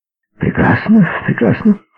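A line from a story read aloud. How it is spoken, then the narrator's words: Enthusiastic doctor exclaiming. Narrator (Russian): с энтузиазмом воскликнул доктор Седлер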